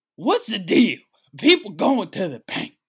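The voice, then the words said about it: Jimmy Fallon impersonating Chris Rock. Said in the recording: “that's my Jimmy Fallon impersonating Chris Rock. That's me impersonating an impersonator.”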